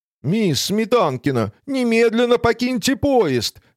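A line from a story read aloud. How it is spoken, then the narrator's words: Shouting from afar. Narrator (Russian): еще издали закричал он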